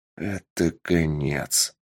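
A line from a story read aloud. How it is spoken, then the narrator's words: Mumbling. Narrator (Russian): пробормотал лорд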